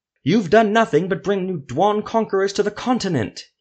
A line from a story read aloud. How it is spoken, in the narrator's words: he shouted